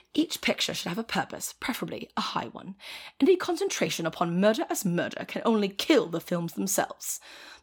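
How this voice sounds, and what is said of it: Put-on British accent. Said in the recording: “Should I read this in a British accent?”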